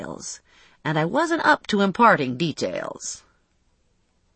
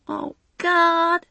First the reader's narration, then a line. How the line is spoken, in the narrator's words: she wailed